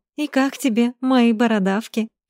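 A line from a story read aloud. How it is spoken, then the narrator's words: Girl giggling. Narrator (Russian): хихикнула девушка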